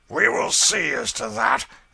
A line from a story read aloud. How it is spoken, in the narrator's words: exclaimed John Canty